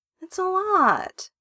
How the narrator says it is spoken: he whines

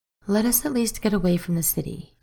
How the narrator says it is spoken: he said instead

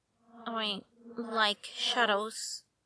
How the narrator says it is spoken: Bruce muttered

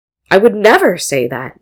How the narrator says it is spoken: Jinu exclaimed

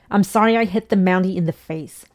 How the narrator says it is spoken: Ray yelled

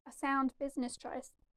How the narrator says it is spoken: Ben said, their voice flat through the modulator of their bucky

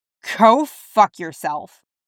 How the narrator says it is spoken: Clint growls

